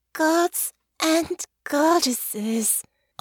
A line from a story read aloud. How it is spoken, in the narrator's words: Honor moaned